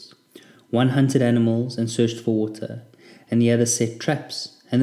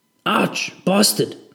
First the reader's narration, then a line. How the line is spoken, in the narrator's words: Connor snapped